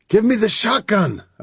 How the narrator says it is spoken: I shouted

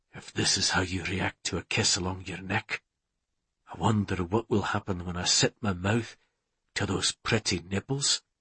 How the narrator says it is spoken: he murmured at her ear

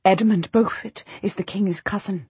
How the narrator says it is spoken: she whispers

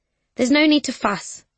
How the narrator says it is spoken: she says curtly

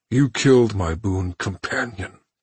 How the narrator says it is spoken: Thanos told her, groaning with pain

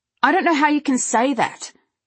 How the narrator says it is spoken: she snaps

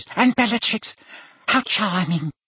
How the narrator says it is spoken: said in a squeaky voice

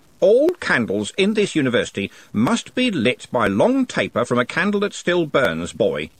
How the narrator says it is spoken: he said sternly

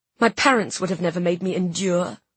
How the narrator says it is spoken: I grumbled

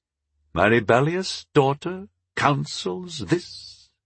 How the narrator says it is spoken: He asked mockingly

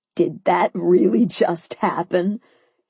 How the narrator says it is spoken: asked through his chuckles

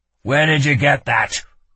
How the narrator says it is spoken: growled Kell, anger rolling through him

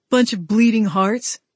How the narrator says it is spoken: Finch snapped at us

